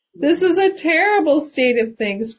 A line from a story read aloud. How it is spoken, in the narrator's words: cried out the sadhu Ram